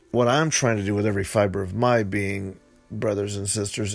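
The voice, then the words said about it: Slightly hoarse voice. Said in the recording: “sorry for my throat. It's a little bit hoarse”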